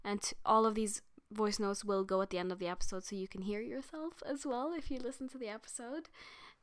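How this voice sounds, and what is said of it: Strained voice, sore throat. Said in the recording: “my throat and my voice just is not... it's... I've had to pause this 100 times because I keep coughing”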